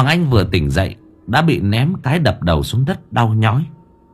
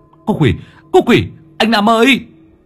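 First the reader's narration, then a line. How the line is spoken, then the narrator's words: Reflexive shout. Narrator (Vietnamese): miệng cũng hét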